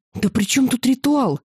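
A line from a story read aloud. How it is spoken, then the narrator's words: Exclaimed. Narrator (Russian): воскликнула я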